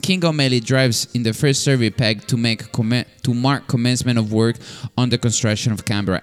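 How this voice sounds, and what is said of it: Speaks with an accent. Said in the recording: “Sorry about this accent.”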